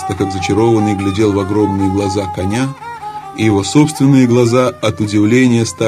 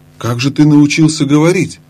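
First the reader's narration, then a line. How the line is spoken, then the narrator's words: Exclaimed. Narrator (Russian): воскликнул он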